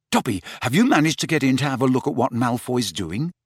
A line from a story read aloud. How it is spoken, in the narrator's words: said Harry eagerly